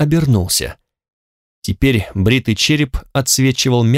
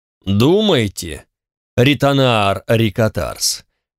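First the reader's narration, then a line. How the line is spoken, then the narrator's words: Formal repetition. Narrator (Russian): официальным тоном повторил тот, кого звали Чонатакс Ора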